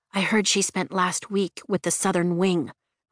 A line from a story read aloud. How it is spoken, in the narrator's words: Rhiannon says quietly